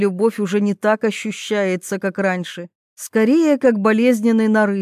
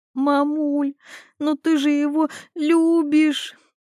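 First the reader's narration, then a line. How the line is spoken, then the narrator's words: Sobbing. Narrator (Russian): всхлипывает Милана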